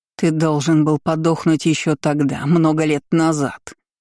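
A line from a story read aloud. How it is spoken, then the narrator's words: Creature's growl. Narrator (Russian): рыкнула тварь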